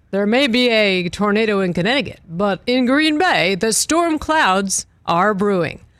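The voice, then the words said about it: Dramatic announcer voice. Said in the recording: “that sounds like a good announcer voice.”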